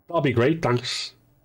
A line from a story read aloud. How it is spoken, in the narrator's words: Miles, who shouted